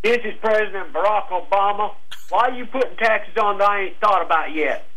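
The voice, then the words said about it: Barack Obama impression, Southern accent. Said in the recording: “When did Barack Obama come from the South? ... He's got a Southern accent.”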